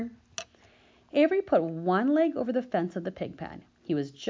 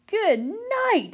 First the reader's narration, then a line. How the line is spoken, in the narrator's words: screamed Avery